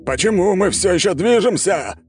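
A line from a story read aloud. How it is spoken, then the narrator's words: Yelling. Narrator (Russian): орал император Воздушной империи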